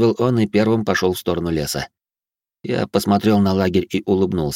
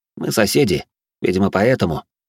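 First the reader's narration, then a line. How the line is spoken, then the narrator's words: Calm. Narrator (Russian): спокойно произнес я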